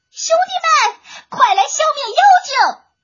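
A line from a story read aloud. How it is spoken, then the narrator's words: Loud shout while falling. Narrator (Chinese): 坠落深渊之际，铁娃高声的呼喊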